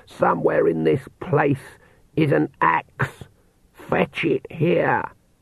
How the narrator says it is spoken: she said in a hoarse whisper

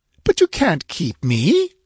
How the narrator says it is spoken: she cried

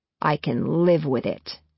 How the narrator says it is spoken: he says coldly

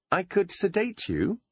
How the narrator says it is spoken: said brightly, as if this were the most reasonable course of action

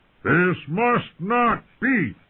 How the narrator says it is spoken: Kotho thundered

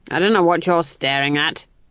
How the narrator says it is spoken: she growled

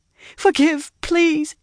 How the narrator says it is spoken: begged as she babbled

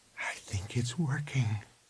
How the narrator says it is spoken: she said softly

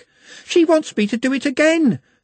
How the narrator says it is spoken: she panted

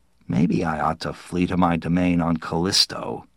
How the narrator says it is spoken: he murmured

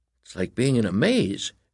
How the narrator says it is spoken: Edgar said nervously

